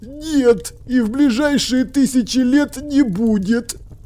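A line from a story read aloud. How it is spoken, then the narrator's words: Groaning. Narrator (Russian): простонал профессор современного руносложения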